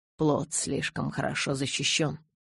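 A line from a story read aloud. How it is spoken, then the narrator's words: Muttering. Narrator (Russian): пробормотал Карлайл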